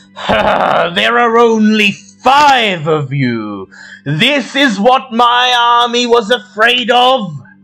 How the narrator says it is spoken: in Draconic, he booms

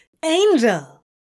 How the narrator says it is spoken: Crowley exclaimed in surprise

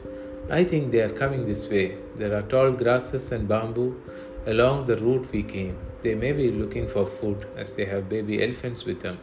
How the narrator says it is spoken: said Chiran

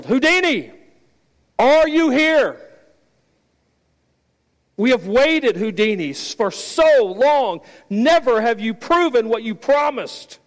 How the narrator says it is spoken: the host yelled

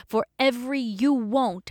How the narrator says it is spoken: I shouted

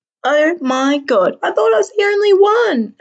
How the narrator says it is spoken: Anna squeals

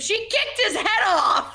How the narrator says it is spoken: you literally scream

